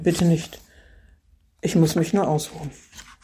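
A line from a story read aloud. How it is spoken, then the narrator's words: Groaning. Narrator (German): stöhnte er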